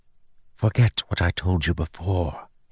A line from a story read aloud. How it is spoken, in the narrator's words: he whispered